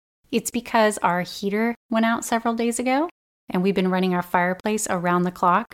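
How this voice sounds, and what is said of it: Slightly raspy voice. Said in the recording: “my voice is a little raspy or different”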